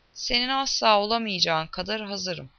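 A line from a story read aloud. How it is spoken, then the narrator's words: Growling. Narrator (Turkish): diye homurdanan Adem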